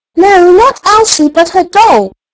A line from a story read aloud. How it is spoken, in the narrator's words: shouted Archie